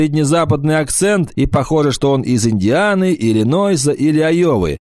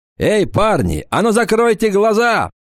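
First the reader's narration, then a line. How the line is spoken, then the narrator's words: Shout. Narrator (Russian): прокричал стертый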